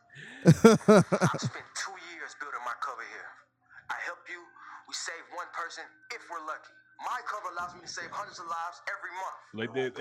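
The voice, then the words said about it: Slight accent, not Atlanta-sounding. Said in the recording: “He got a little accent too. He don't sound like he from Atlanta.”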